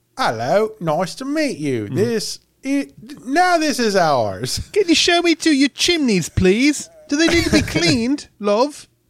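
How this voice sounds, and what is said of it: Put-on Cockney-style English accent. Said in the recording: “it's probably the wrong accent, right? ... Less Bert and more uh, Lord, I guess.”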